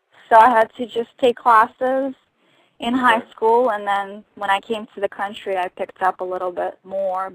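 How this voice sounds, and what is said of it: Russian accent with Texan tinge. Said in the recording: “you can probably hear my accent. And it's kind of Texanized, so it probably is really funny... I can hear Texas accent, and then you have Russian accent over that”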